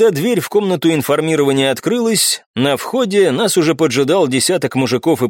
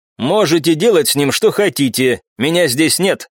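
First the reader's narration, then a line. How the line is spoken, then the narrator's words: Smirking snort. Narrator (Russian): хмыкнул барон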